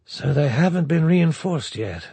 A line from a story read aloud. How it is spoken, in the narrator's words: de Bertolet breathed